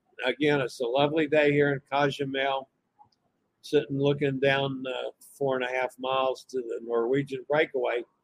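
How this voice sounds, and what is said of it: Voice fading, hoarse. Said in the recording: “My voice is going away.”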